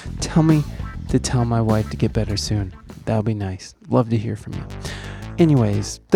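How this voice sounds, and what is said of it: Speaking softly, quiet voice. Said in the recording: “I'm talking so softly, ... I'm not trying to wake up any of the sick people in my house”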